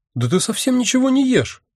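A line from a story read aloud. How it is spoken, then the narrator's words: Sudden exclamation. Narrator (Russian): внезапно воскликнула она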